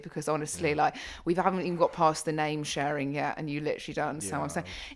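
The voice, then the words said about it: Posh Southern English accent. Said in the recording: “Her accent's so posh that people in South Africa couldn't understand ... I speak just normal for a Southern England”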